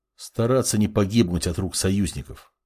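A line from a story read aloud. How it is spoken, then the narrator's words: Quiet reply. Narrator (Russian): тихо ответил маг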